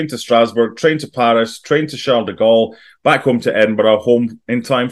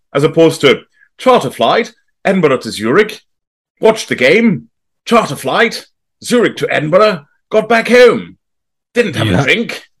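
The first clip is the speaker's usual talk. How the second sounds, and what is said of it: Posh old-fashioned English accent. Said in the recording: “You have to be posh English from the 1950s, apparently, to do that. ... That's a Stockbridge accent.”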